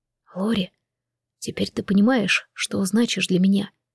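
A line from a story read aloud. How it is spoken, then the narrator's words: Soft whisper. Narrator (Russian): тихо прошептал Джейсон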